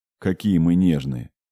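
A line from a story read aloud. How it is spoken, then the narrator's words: Frowning grumble. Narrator (Russian): буркнул Покаполь, нахмурившись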